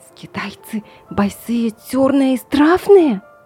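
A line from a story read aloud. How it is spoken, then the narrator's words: Loud lisping. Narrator (Russian): Прошепелявил громко Джек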